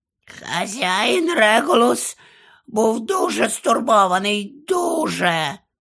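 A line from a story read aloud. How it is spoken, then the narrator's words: Hoarse mutter. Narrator (Ukrainian): прохрипів собі під ніс Крічер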